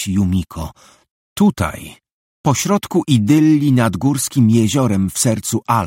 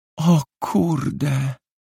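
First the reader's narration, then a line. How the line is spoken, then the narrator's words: Whisper. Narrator (Polish): wyszeptała Yumiko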